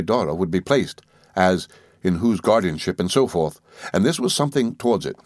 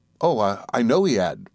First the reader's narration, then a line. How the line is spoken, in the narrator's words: said I